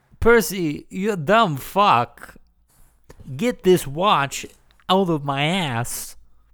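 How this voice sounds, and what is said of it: Imitates another person's voice. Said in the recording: “Was that Christopher Walken? ... I fucking nailed that. ... That was pretty good, actually. ... my Walken impression.”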